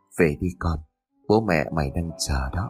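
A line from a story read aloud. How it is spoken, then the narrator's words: Soft old man's whisper. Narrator (Vietnamese): Lão khẽ thì thầm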